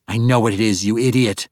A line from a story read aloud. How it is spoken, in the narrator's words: Jindia snapped